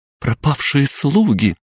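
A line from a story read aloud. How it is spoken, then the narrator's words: Girls exclaiming in unison. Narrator (Russian): в унисон воскликнули девушки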